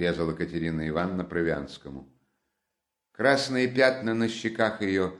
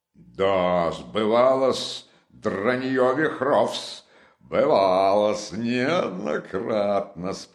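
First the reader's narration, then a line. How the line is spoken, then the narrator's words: Roaring. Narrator (Russian): проревел опять Провянский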